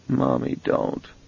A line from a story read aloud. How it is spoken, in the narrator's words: murmured